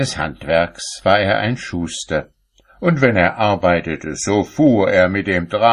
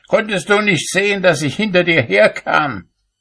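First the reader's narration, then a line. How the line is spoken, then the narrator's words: Calling out to her. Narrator (German): rief er ihr zu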